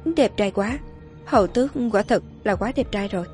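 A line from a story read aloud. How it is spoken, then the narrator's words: Murmur. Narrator (Vietnamese): Shirley lẩm bẩm nói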